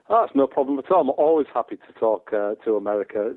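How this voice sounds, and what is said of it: Teesside northern English accent. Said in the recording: “You were a man from Teesside. You were a man with strong Middlesbrough roots, and a lot of people, when they hear your accent, they say that you are either Dutch, Australian, or Scouse ... If you have a Teesside accent”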